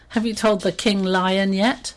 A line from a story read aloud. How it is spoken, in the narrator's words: hyena in between laughs he said